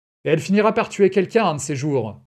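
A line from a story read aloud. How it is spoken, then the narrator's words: Indignant shout. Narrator (French): lui cria Madame Mislabersky d'un ton indigné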